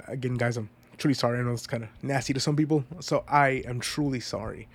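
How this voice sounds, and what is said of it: Congested, stuffy-nosed voice. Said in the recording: “I'm sorry if I sound really congested.”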